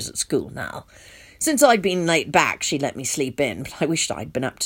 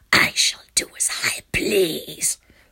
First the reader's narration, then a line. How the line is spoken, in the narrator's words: the beast hissed